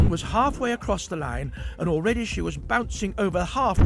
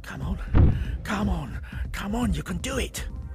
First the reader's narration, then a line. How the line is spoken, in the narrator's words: Jeff stuffed a knuckle in his mouth in concentration, mumbling the words